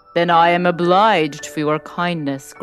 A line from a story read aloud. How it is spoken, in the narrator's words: growled the beast